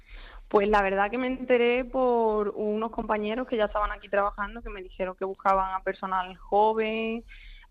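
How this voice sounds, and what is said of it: Andalusian Spanish accent. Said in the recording (Spanish): “por el acento yo diría que eres de Huelva o de Andalucía”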